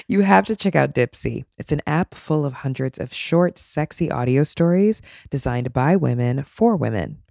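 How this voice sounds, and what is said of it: Raspy, sick-sounding voice. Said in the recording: “somebody with like a raspy voice like I have right now because I'm sick”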